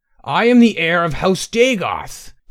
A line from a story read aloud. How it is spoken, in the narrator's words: Tay was wild-eyed, almost screaming